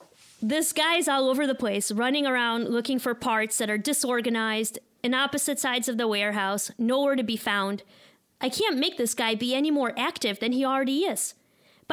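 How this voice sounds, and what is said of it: Put-on Chicago accent. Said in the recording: “I also have a Chicago accent, apparently.”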